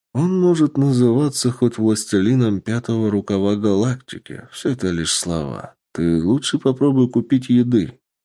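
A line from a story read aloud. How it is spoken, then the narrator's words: Calm reply. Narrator (Russian): спокойно ответил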